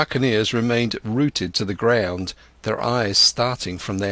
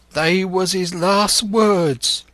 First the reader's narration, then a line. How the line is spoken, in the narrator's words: moaned Morgan